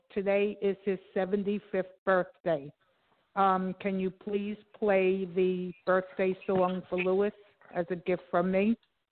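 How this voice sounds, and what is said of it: Strong Brooklyn accent. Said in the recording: “He'll know the Brooklyn accent. ... Oh, yes. Can't miss that.”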